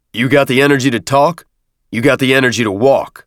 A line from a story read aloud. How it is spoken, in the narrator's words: Avery snapped